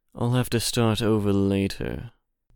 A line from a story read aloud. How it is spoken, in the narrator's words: muttered the genie